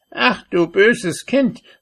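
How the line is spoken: Sorceress calling out. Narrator (German): rief die Zauberin

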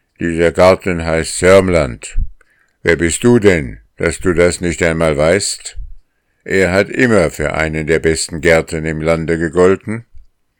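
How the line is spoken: Gruff voice. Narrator (German): der Gärtner … sagt mit barscher Stimme

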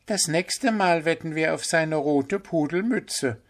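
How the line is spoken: Giggling group. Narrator (German): sagten sie und kicherten

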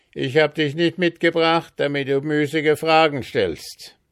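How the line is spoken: Stern little man calling. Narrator (German): rief das Männlein mit strengem Blick

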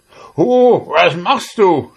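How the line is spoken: Devil shouting angrily. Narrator (German): schrie der Teufel zornig

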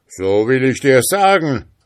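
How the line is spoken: Ghost calling out. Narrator (German): rief der Geist

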